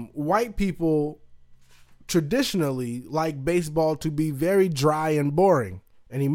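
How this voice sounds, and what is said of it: Usual voice. Nothing is said of it.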